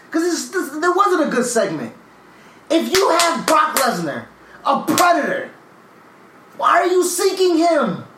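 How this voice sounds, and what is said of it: Raised, shouting voice. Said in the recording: “I'm raising my voice. I'm raising my fucking voice.”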